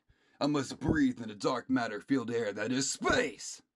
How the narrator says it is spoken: Goldeath says happily

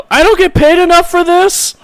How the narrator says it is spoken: you just hear one yell

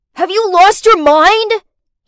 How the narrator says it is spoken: he shouted

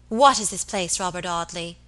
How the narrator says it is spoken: cried fiercely

